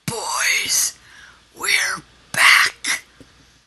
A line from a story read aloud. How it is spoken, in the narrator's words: He whispered